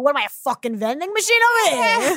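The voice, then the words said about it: Imitates their mother's voice. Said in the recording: “Your impression of your parents”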